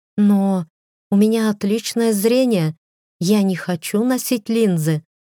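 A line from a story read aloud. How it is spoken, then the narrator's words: Plain. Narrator (Russian): сказала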